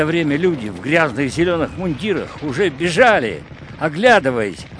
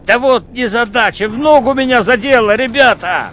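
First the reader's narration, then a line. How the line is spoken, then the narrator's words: Shouted. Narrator (Russian): Петр упал на землю и крикнул кому-то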